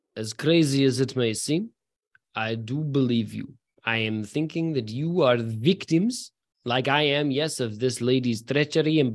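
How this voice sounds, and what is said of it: Put-on Russian accent. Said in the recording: “in his very good Russian accent ... That he's definitely not been practicing ahead of time”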